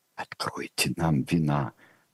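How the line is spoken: Whisper. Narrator (Russian): прошептал государь Фредериксу

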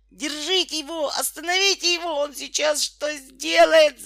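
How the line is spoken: Desperate yell. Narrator (Russian): заорал Петька отчаянным голосом

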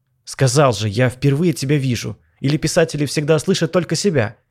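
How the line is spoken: Snapping retort. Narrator (Russian): огрызнулся

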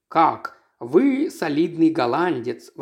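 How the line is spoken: Exclaimed. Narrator (Russian): воскликнул мистер Троубридж

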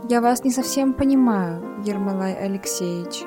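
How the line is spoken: Plain. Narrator (Russian): ответила Любовь Андреевна

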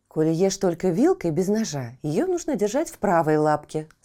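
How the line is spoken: Plain. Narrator (Russian): сказала мама

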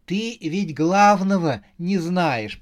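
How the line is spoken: Laughing. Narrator (Russian): продолжала смеяться Саша

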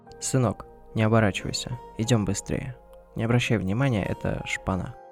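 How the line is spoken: Quiet father. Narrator (Russian): тихо произнес папа

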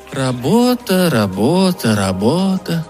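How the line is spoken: Sighing. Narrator (Russian): Роэлла вздохнула

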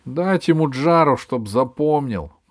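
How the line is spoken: Grim. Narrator (Russian): мрачно сказал Джонни

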